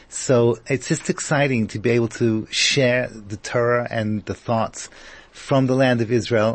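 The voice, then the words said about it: English accent with American tinge. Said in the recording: “I'm originally from England with a little twist of American. ... my accent, it's a little twisted ... Shades of My Fair Lady and Henry Higgins”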